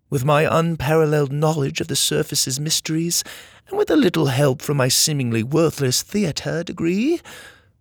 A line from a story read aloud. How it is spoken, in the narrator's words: Laney scoffed